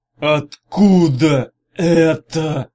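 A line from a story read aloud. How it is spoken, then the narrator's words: Hoarse rasp. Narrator (Russian): прохрипел Арей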